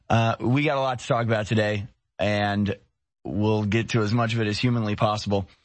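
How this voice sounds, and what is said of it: Badly strained, nearly lost voice. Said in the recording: “My voice is really bad. ... it's worse than this morning. ... Not sick. It's just my voice is gone. ... to lose my voice.”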